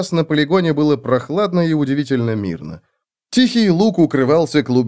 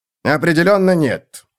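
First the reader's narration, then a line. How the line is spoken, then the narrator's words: Sharp reply. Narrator (Russian): резко ответил лорд Грот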